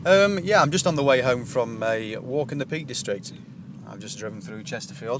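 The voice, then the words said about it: Speaker's own regional accent. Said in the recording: “Forgive my accent.”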